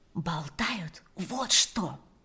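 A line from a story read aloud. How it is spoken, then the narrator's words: Whispering. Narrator (Russian): прошептала Ирина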